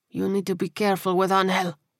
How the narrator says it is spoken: Rodriguez said quietly through gritted teeth

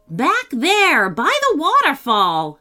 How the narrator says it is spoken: shouted Bob

